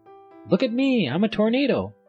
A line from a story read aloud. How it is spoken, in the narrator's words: he shouted